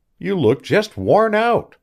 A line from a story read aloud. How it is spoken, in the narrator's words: she cried cheerily